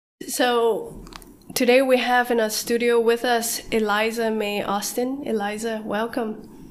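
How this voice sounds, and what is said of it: Sick-sounding, altered voice. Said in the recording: “I'm down with a cold at the time of recording, so you're going to hear that my voice sounds a little bit different”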